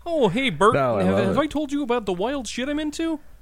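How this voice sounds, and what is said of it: Imitates a cartoon puppet character voice. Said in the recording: “I sounded like fucking Ernie ... I just did an Ernie and Bert impersonation by myself”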